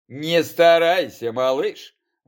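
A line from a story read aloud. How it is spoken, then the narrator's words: Grim smirk, plague wolf. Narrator (Russian): мрачно ухмыльнулся чумной волк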